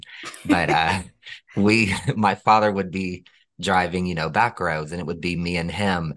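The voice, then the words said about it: Rural twang accent. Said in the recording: “You can probably hear it in my twang.”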